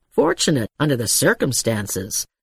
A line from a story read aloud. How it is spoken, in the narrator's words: Electra muttered obscurely